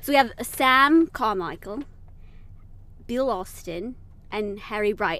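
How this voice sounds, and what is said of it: Put-on British accent. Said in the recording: “I'm saying this in a British accent”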